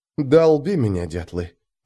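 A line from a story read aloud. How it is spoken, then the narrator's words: Whispered curse. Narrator (Russian): прошептал я росское ругательство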